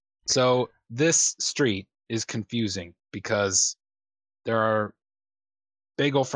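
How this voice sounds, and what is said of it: Usual voice. Nothing is said of it.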